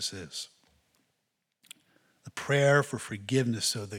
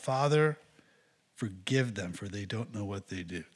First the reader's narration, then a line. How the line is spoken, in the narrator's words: But in the midst of all this, he cries out